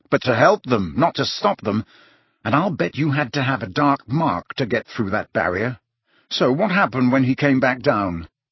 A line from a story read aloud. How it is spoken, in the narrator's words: said Harry savagely